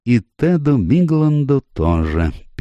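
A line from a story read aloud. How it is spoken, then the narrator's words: Sad detective. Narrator (Russian): печально продолжил сыщик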